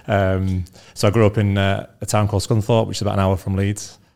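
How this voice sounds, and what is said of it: Northern English Leeds accent. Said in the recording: “pretty normal guy from North Leeds, which you keep reminding me with my accent”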